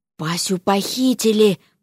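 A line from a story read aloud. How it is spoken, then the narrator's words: Frightened whisper. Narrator (Russian): прошептал Алёша, побледнев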